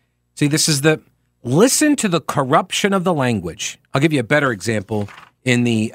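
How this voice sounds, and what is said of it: Usual voice. Nothing is said of it.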